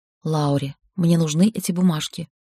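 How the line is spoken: Mouthed whisper. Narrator (Russian): прошептал одними губами

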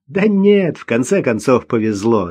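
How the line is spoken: Laughing. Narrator (Russian): засмеялся

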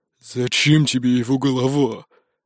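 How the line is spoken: Crushed, despondent. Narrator (Russian): Убитым голосом спросил Рам

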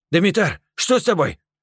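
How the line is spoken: Shout. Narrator (Russian): крикнул Керим

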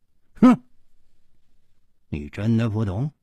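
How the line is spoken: Cold. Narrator (Chinese): 冷秋魂冷声说

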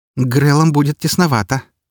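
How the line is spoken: Snorted. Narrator (Russian): фыркнула Фокси

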